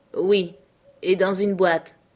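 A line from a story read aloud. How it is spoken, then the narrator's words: Plain. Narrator (French): répondit Henri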